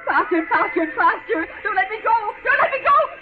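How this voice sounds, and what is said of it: Screaming in panic. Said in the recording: “Why am I screaming?”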